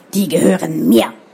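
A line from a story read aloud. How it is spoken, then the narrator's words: Barked from behind. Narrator (German): bellte es hinter ihnen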